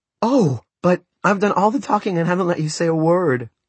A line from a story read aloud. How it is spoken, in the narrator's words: Maria cried at last